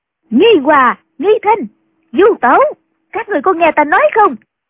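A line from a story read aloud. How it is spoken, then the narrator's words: Loud calling. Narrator (Vietnamese): lớn tiếng gọi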